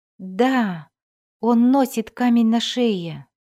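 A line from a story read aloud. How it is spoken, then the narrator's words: Forced out, tearful. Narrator (Russian): выдавила девушка, и по ее щекам потекли слезы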